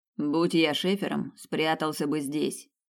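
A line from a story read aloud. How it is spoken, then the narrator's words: Grumbling mutter. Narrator (Russian): пробурчал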